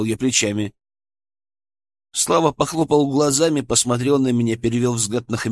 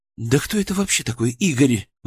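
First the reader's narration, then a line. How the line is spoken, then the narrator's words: Exclamation. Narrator (Russian): воскликнул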